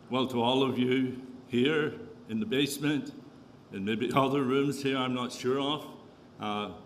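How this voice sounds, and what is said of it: Northern Irish accent. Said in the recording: “is this really a Canadian accent ... I'm Irish Canadian ... born and raised in the north of Ireland”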